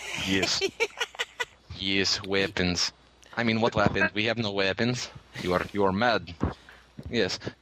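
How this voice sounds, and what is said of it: Mock Russian accent. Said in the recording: “I could always try some bad Russian on you ... I do bad Russian ... the Russian accent”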